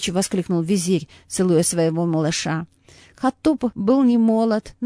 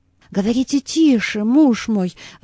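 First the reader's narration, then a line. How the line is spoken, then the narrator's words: Frightened pleading woman. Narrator (Russian): взмолилась испуганная столь странными речами Лейла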